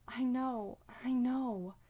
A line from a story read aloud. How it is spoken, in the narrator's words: Sam gasps out